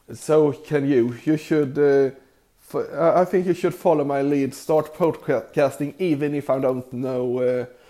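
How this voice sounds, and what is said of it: Heavy accent in English. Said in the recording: “with a terrible accent”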